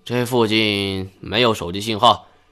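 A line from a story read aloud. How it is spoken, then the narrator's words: Sighing. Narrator (Chinese): 车老板叹了一口气道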